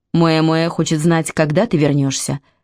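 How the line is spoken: Plain. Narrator (Russian): сказал брат

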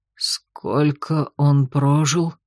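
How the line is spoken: Hoarse, dying rasp, werewolf. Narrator (Russian): Голос оборотня хрипел, как перед смертью

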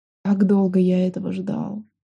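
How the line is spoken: Whisper in the ear, spirit. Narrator (Russian): прошептал мне на ухо освобожденный дух

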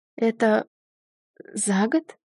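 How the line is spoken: Strained rasp. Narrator (Russian): прохрипела я с трудом

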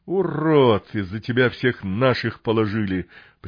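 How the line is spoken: Bestial growl. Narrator (Russian): прям-таки по-звериному зарычал оставшийся в живых мародер

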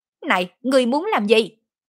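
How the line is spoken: Shout. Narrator (Vietnamese): hét

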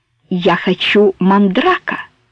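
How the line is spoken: Calm declaration. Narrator (Russian): спокойно заявила Соня

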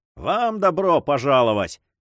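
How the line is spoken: Cheerful reply. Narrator (Russian): весело ответил губернатор

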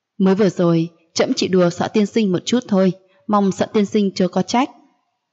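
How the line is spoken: Satisfied, laughing loudly. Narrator (Vietnamese): Mặc Cảnh Lê rốt cục hài lòng, hắn giọng cười lớn, cười nói

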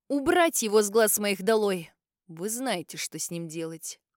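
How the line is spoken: Hoarse commanding voice. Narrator (Russian): Распорядился он севшим голосом

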